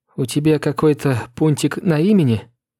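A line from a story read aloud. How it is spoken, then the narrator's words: Almost trembling voice. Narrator (Russian): Почти дрожащим голосом спросила Агнес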